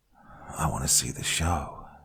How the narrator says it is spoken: whispered

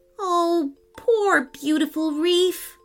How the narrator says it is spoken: wailed, as the lava threatened to push out onto the beach

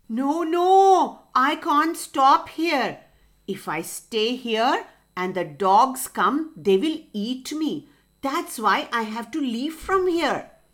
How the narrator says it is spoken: Fox howled

